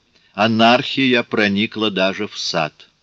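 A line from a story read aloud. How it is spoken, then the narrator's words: Grumbled. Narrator (Russian): проворчал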